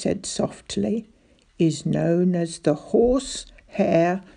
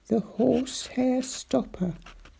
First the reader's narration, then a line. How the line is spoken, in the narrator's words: I murmured